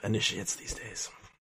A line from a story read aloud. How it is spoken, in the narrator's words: muttering